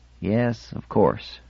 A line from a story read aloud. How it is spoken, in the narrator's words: Athor muttered